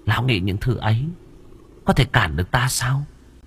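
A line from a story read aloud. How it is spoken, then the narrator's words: Contemptuous, smiling. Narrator (Vietnamese): Nữ quỷ khẽ mỉm cười, ánh mắt khinh khỉnh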